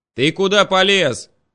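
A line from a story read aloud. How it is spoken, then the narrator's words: Yelling. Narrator (Russian): заорал Шурик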